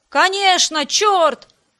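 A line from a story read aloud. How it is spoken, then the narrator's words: Several women shouting together. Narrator (Russian): закричали в один голос несколько убежденных матрон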